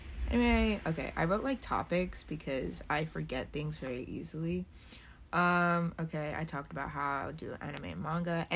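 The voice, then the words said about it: Phlegmy, just-woke-up voice. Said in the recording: “I know my voice is really annoying. I just woke up, and I have, like, mucus in the back of my throat, so that's why I sound disgusting”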